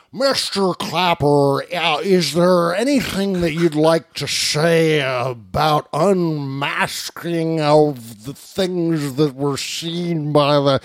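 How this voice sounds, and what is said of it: Imitates another person's voice. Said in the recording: “my Chuck Grassley impression.”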